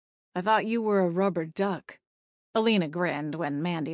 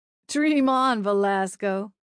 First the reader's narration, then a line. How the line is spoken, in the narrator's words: she said with a friendly laugh